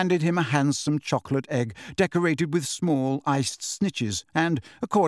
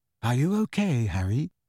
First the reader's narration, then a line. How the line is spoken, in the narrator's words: asked Ginny quietly